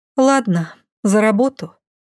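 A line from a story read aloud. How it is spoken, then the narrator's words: Deep sigh. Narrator (Russian): глубоко вздохнула я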